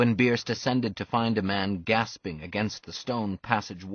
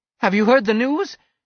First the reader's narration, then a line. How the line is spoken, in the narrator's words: he cried immediately, like a man about to fall over a cliff